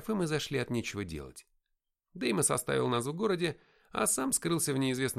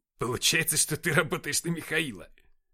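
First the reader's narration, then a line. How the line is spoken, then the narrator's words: Smug exclamation. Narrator (Russian): С довольной рожей воскликнул Никита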